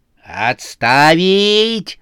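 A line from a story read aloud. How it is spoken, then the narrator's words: Growling. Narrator (Russian): зарычал ужасная Сюзанна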